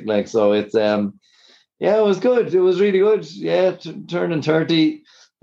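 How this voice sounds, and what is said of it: Strained, hoarse, worn-out voice. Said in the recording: “my voice is gone today, not from anything but actually just trying to talk to everyone who was there over the music”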